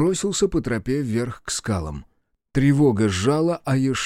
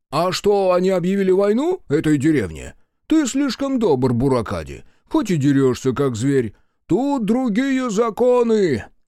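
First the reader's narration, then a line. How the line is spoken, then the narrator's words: Cheerful chatter. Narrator (Russian): Весело разболтался Соба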